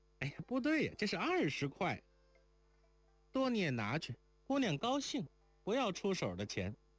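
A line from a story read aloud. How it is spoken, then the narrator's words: Cheerful, smiling. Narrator (Chinese): 邢妈儿笑着道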